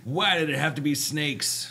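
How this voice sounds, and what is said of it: Imitates a movie character's voice. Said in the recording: “That was my best impression right there. ... That's pretty good.”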